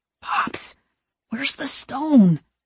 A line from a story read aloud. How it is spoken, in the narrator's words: He whispers